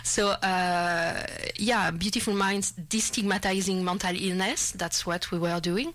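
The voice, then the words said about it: Non-native English accent. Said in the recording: “People understand accent.”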